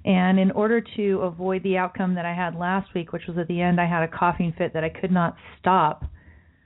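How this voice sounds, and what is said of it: Sick-sounding voice. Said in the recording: “You can hear in my voice, I still am battling the sickness”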